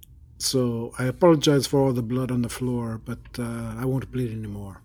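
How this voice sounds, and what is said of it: Put-on Russian accent. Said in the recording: “Your accent has changed ... You're a Russian kitty.”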